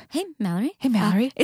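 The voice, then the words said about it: Very soft, sultry bookseller voice. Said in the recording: “Your impression of a bookseller at Skylight? ... Like the most like softest like phone sex hotline.”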